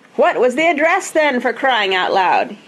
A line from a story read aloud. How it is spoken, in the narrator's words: he yelled